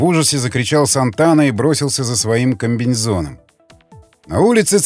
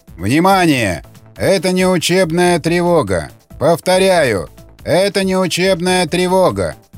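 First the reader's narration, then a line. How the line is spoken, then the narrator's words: Hoarse shouting over loudspeaker. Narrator (Russian): кричал до хрипоты из громкоговорителя голос дежурного диспетчера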